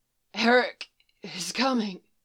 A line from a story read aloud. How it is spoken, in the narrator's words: Gasping for breath as he breathed out